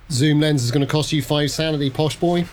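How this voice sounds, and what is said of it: Put-on Norfolk accent. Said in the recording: “I went very Norfolk then. Very Norfolk.”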